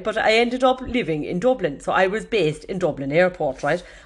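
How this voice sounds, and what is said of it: Put-on Kerry Irish accent. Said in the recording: “I'm still talking now in the Kerry accent”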